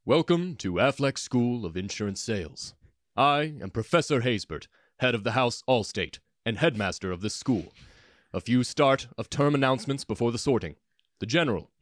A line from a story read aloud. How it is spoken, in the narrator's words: In the deepest voice Flo had ever heard, he said